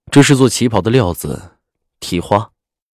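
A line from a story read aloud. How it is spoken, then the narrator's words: Cold voice. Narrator (Chinese): 赵世南冷声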